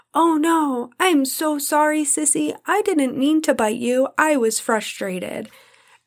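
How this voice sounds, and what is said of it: Imitated little child's voice. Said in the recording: “in my little Ellie voice”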